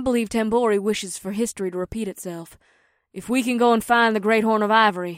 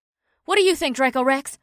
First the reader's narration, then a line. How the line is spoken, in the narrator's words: Rikuri blurted out